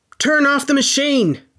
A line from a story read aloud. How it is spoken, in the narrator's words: Professor Moriarty yelled